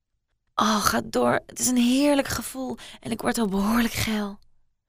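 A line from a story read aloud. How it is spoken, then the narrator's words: Deep sigh. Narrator (Dutch): Met een diepe zucht zei ze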